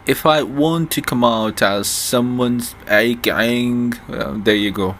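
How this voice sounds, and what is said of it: Attempted British accent, drifting. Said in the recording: “My attempt at the British accent went from British and then the dictator accent”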